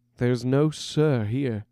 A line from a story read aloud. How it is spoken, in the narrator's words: chuckled Silas